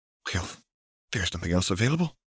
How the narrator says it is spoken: Isabel sighed

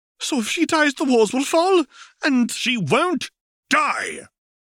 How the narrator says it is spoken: roared Tom

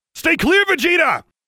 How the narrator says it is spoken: Goku yelled

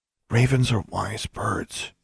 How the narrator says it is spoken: she murmured in Charlie's ear

